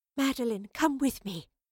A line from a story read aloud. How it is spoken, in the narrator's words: breathed, still tired from the bout